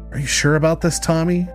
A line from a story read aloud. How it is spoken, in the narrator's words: Sarah asked, clutching the lapels of her cape nervously